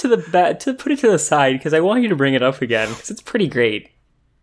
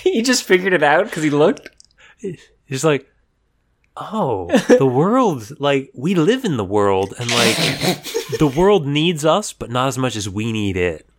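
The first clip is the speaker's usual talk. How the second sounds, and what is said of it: Imitates another person's voice. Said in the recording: “Your Greg Cipes impression is way better than any of your character impressions.”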